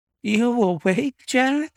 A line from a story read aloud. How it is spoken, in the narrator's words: she cried with a nervous laugh